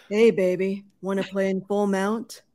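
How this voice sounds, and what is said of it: Deliberately deep, low seductive voice. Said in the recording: “in a very low voice so it'll sound good ... I sound like a creep there”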